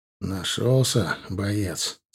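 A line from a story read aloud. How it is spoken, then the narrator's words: Quiet, gentle. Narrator (Russian): сказал я тихо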